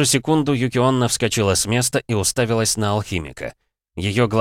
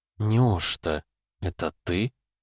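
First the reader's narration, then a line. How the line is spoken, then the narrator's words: Incredulous female mutter. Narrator (Russian): пробормотала она, не веря собственным словам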